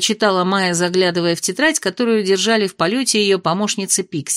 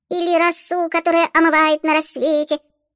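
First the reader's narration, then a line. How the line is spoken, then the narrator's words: Dreamy squeak. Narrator (Russian): мечтательно пискнула Чата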